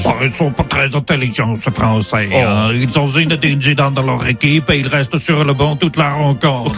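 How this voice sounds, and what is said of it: Put-on Belgian French accent. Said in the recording (French): “Cet accent belge”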